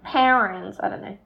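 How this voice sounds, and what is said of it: Exaggerated put-on American accent. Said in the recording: “I got to whack on a really hectic American accent.”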